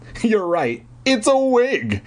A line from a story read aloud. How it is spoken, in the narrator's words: told him, laughing